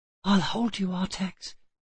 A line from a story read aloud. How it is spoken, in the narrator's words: he whispered